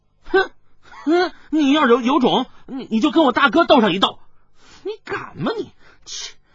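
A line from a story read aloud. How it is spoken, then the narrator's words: Loud child's voice. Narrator (Chinese): 跛足童子大声的说道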